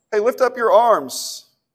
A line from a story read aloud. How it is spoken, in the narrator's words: Ben called out